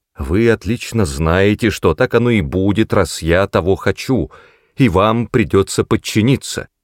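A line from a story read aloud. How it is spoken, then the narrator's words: Loud shout. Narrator (Russian): крикнула так громко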